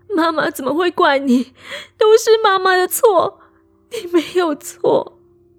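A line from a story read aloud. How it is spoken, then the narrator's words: Sobbing, crying out. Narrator (Chinese): 一边哭喊着说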